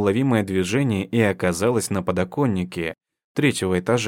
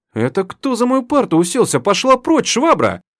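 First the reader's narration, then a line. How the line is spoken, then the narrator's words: Shrill mocking howl. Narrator (Russian): Визгливо, копируя старосту, взвыл Валентин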